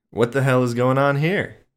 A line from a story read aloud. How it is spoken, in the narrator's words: He yelled, barely audible under the music